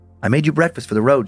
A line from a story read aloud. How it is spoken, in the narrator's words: she said